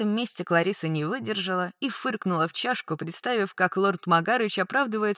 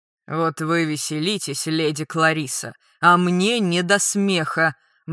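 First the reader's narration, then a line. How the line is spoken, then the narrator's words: Gloomy. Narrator (Russian): мрачно сообщил лорд Грайси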